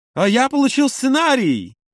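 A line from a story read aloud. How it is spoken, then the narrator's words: Exclaiming. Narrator (Russian): воскликнул Юра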